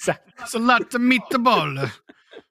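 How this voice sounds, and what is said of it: Put-on Italian accent. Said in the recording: “Every time I do even that remote accent, I have to put my fingers. ... I feel like it helps the accent if you do the hand gesture.”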